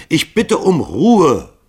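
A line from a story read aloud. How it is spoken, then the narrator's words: Bellowing. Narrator (German): brüllte Hall sie an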